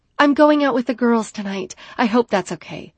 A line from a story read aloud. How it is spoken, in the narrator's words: I exclaimed